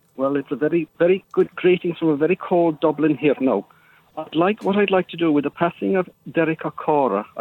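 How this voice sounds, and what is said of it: Poorly faked Irish accent. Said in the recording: “give to you do a decent Irish accent ... maybe you could have worked on the accent a little bit better, or phoned in using one that you could actually do ... You sounds like you're from Pakistan”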